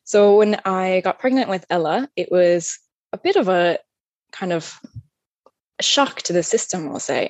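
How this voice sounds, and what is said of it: American upstate New York accent. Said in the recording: “As you can probably tell from my accent, I'm not originally from Ireland. I'm from upstate New York”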